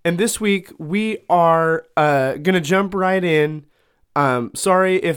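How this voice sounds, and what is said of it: Voice sounding slightly off. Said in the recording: “my voice sounds a little off. I've had just kind of, I don't know if it's allergies or a cold.”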